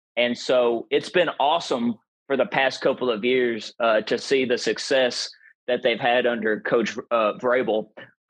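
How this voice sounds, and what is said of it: Tennessee Southern American accent. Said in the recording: “because of my accent, I'm from Tennessee”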